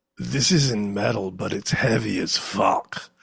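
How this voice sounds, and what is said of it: Burly heavy foreign accent. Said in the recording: “in that super burly, super fresh off the boat accent”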